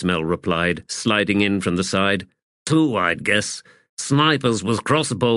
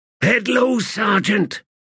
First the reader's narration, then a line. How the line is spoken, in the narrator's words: Throat Slitter hissed